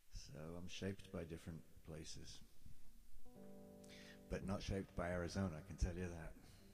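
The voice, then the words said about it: English accent. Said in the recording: “I have the English accent, obviously, from growing up in England”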